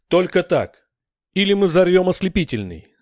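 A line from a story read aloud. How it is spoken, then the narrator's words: Tense breaking shout. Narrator (Russian): Сорвавшись от внутреннего напряжения, крикнул Грик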